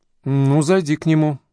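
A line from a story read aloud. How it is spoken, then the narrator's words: Unsure reply. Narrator (Russian): ответила она неуверенно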